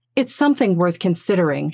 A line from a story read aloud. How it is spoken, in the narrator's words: said